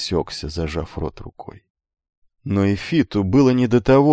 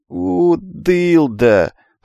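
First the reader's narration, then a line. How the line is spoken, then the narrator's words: Melancholy drawl. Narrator (Russian): с тоской протянул он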